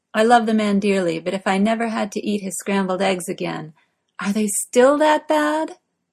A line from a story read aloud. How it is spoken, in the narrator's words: Morgana asks, joining in the laughter